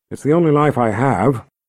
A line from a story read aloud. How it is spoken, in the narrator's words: Nikki said